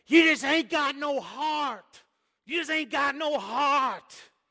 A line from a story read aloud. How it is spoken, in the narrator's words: He'd get to yelling